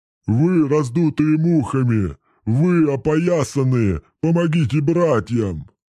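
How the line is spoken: Roaring bellow. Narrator (Russian): взревел Бубон-Дубон

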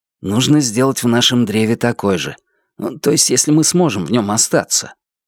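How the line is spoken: Whisper. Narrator (Russian): Звон прошептал

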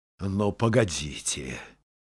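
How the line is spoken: Angry grumbling. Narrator (Russian): сердито ворчал

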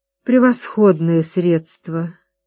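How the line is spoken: Breathy exhale. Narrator (Russian): выдохнула Камилла

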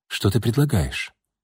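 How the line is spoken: Quiet question. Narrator (Russian): так же тихо спросила Настя

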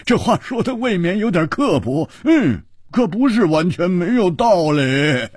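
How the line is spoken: Laughing heartily. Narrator (Chinese): 胡铁花大笑

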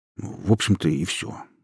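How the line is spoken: Grumbling mutter. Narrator (Russian): буркнул Май

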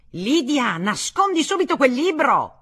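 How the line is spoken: Yelling. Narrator (Italian): urlava

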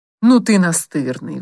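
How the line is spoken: Sighing. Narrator (Russian): вздохнул Самсон

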